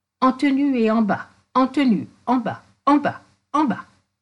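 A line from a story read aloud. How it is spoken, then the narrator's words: Shouting, frantic with horror. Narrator (French): en criant, éperdu d'horreur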